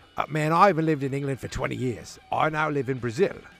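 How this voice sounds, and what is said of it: Put-on British accent. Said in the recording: “do a Paul Di'Anno accent ... try to be a British man”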